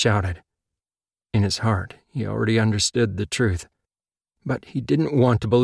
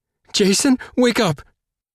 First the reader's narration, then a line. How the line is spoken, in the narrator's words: Ty pleaded